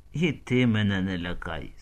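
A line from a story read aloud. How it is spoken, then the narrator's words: Plain. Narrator (Ukrainian): сказав Залузківський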